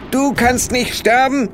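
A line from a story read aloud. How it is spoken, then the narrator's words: Call out. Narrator (German): rief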